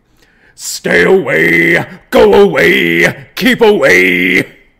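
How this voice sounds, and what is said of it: Imitates a rock singer's voice. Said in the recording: “my Godsmack impression”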